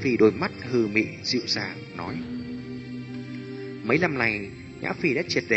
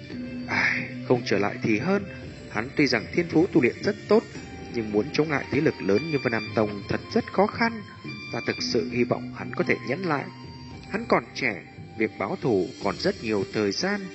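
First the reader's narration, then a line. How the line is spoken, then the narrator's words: Muttering. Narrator (Vietnamese): Hải Ba Đông lẩm bẩm nói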